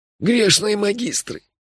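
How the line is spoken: Desperate moan. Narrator (Russian): с отчаянием простонал Мелифара

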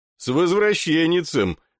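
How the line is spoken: Mocking warrior's greeting. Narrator (Russian): насмешливо поздравил его проходящий мимо воин

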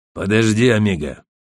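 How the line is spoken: Deep bass voice of big man. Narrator (Russian): пробасил здоровяк

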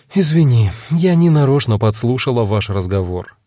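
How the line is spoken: Sighing. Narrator (Russian): вздохнула Агата

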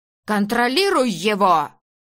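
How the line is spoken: Barked. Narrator (Russian): рявкнула она

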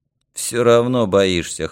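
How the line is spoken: Scoffing snort. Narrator (Russian): хмыкнул Юрка

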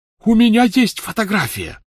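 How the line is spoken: Shouting. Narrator (Russian): закричал Люпин

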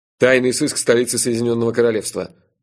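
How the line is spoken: Dry. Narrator (Russian): сухо представился Джуффин

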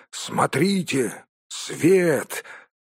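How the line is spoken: Exclamation. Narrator (Russian): Балин воскликнул

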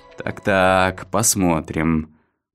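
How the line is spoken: Mutter. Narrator (Russian): пробормотал Лакман

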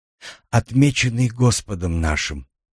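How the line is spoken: Whisper. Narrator (Russian): прошептала она

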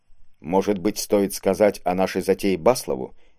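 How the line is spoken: Quiet question. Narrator (Russian): негромко спросил Вейзель

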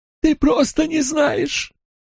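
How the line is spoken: Whimpering. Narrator (Russian): проскулил Фейн

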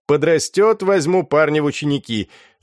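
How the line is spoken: Laughing. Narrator (Russian): смеялся Фортунат

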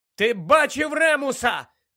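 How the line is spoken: Shouting after someone. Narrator (Ukrainian): крикнула йому навздогін Тонкс

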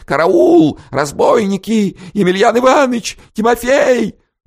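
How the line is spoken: Screaming, young woman. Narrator (Russian): Молодая в заячьей шубке тоже завопила

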